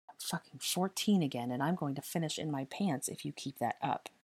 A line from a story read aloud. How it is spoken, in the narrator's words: he muttered into her neck